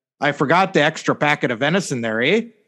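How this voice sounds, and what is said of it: Put-on Wisconsin accent. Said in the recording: “In my best Wisconsin accent,”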